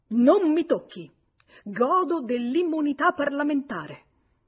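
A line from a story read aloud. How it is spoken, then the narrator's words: Sudden sharp exclamation. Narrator (Italian): L'uomo allora esclamò scattando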